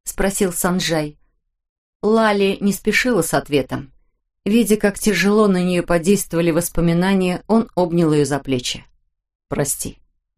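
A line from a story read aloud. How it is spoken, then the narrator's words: Plain. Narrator (Russian): сказал он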